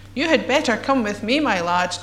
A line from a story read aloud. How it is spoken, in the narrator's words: chuckled a gruff, jolly voice